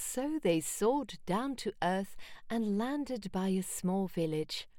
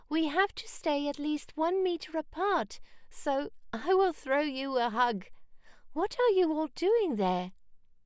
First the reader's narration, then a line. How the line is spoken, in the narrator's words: she cried